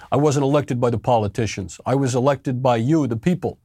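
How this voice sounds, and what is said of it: Generic New York accent. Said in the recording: “it's not even like I'm just doing a generic New York”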